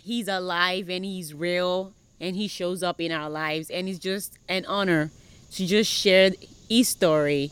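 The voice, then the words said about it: Nigerian accent, not Southern American. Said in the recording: “she's not from around here. No, not Alabama... She is not from Alabama, not Mississippi. It's a different accent... coming from Nigeria”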